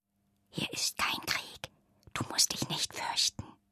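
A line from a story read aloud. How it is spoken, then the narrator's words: Whispering. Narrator (German): flüsterte sie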